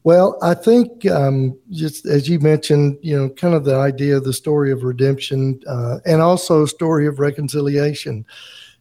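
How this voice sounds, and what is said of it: American regional accent. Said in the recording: “you sound a little different than we do ... We do, right? ... Michigan and Mississippi”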